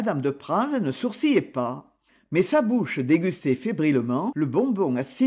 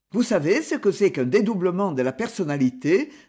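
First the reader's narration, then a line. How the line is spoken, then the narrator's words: Sneering, continuing. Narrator (French): reprit Lionel, qui ricanait toujours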